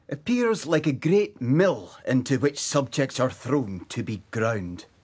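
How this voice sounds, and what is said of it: Character voice with distinct accent. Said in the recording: “This is Boswell talking now. He's a companion voice to my Dr. Johnson. You can tell them apart by the accents.”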